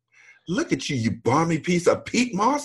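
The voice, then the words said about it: Put-on British accent, insulting tone. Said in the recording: “if you say anything in a British accent, you can make it into a put down ... say with a British accent ... it comes out sounding like an insult”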